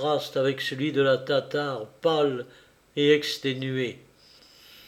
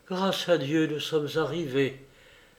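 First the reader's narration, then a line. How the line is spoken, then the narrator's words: Weak voice. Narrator (French): dit la tatare d'une voix faible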